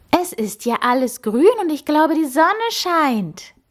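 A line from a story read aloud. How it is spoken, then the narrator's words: Enthusiastic woman calling. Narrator (German): rief sie begeistert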